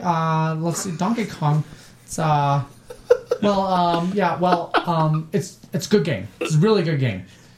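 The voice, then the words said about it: Imitates another person's voice. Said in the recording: “not a very good Brandon impression”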